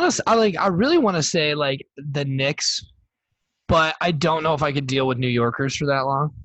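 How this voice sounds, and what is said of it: Usual voice. Nothing is said of it.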